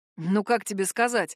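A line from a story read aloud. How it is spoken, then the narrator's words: Wry snort. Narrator (Russian): хмыкнул я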